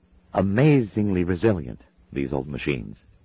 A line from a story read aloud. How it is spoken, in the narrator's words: said brightly